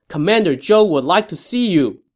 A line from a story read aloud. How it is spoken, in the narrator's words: Ding Feng shouted from the front of his boat